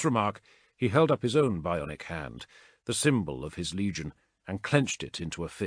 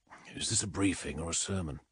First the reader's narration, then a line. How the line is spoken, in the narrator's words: Xandu whispered